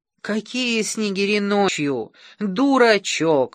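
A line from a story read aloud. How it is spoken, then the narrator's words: Exclamation. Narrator (Russian): воскликнула матушка Морки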